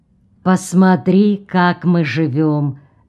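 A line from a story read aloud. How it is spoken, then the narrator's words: Gentle. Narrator (Russian): мягко заговорил Орво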